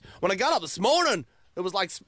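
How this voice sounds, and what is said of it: Put-on Irish accent. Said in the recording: “I think I went Irish really quick.”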